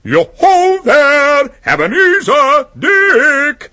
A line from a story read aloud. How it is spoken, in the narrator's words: called out